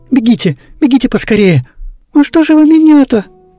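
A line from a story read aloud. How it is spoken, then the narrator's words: Squeaky distressed cry. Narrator (Russian): пищала завязшая под плетнем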